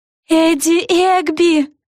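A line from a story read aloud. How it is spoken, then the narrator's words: Yelled. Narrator (Russian): завопила Флафанора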